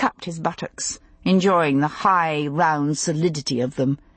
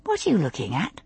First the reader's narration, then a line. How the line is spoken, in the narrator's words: she asked softly